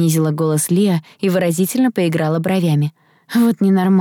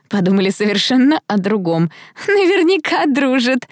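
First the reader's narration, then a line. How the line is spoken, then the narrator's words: Laughing speech. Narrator (Russian): сквозь смех сказала Белинда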